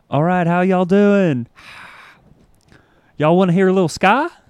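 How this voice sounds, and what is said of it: Southern American accent. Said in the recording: “back when I had a southern accent for reals ... it sounds like this.”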